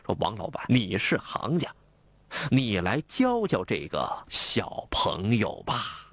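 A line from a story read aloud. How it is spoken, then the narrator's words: Old customer, laughing. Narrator (Chinese): 这老客笑了，一边笑着对王发财说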